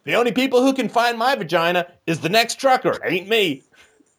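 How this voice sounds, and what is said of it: Comic character voice, odd accent. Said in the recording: “What accent is that? ... That was a great character. You really got into that.”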